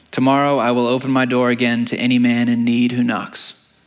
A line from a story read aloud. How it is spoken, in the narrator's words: he said evenly and clearly